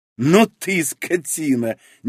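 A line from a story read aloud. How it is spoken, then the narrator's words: Sudden laughter. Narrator (Russian): неожиданно рассмеялась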